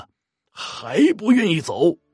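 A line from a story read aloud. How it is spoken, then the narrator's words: Roaring. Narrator (Chinese): 老道这时大吼一声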